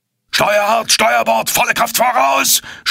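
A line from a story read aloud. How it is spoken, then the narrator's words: Screamed. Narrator (German): schrie Farragut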